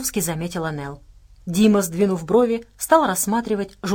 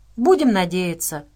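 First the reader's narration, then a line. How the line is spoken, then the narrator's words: Sighing. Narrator (Russian): вздохнул Дима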